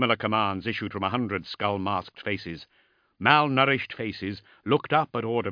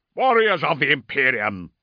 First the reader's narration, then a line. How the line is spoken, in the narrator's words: roared Ordemail